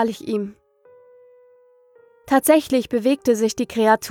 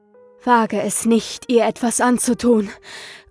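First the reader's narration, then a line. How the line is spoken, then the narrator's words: Gasping in fear. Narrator (German): keuchte ich vor Angst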